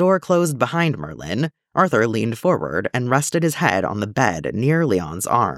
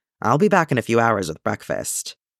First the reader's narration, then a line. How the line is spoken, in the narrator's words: With a reluctant nod, Merlin murmured